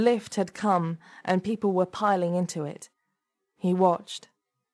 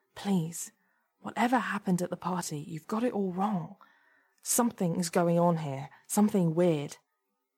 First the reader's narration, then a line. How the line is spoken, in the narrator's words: Anthony whispered to Debbie